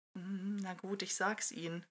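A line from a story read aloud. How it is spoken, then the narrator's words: Murmuring. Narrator (German): murmelte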